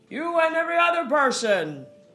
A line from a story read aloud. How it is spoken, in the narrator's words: someone yelled